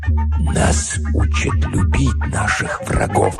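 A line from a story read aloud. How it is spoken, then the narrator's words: Whisper. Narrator (Russian): прошептал мистер Уильямс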